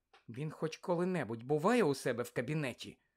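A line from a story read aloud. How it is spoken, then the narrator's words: Sudden whisper. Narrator (Ukrainian): раптом прошепотіла Герміона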